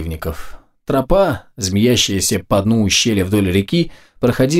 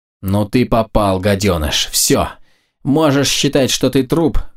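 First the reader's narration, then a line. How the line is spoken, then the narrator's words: Hissed through teeth. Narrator (Russian): процедил сквозь зубы Кай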